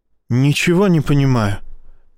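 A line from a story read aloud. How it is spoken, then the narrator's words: Near whisper. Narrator (Russian): почти шепотом сказал Изя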